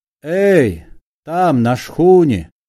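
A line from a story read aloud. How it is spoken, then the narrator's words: Tired shout. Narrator (Russian): устало крикнул Остап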